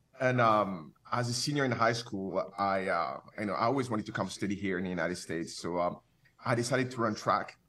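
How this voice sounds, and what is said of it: French accent. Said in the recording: “the French accent is still anchored in me. It doesn't leave.”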